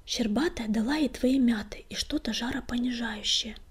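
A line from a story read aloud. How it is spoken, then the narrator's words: Whisper. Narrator (Russian): шепнула Златошейка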